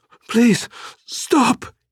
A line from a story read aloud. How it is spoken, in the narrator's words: she gasped